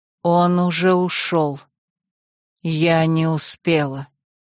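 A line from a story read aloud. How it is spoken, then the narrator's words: Slow numb speech. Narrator (Russian): С застывшим лицом она медленно сказала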